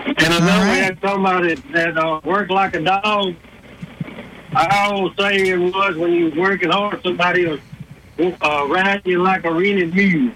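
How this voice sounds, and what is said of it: Southern Alabama accent. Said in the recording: “being from Alabama ... since they hear your accent ... my accent, where I'm from”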